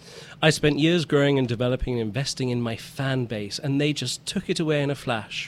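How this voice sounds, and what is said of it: Speaker's natural accent. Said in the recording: “read this quote in your accent because you sound like Milo”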